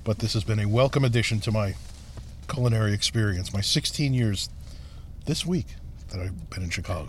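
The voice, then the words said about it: Slight East Coast American accent. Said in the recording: “You still have a little East Coast accent. ... That's never going away”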